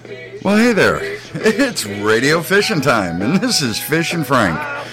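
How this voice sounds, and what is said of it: Radio announcer voice. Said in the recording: “my best announcer voice”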